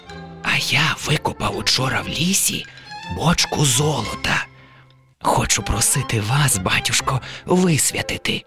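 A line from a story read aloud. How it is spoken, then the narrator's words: Whispered. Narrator (Ukrainian): Убогий каже пошепки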